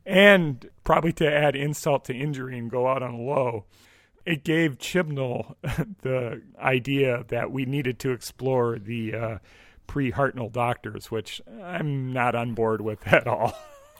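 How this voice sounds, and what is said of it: Hoarse, fading voice. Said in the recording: “I'm losing my voice now”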